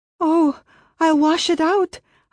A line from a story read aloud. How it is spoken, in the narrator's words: I gasped in fright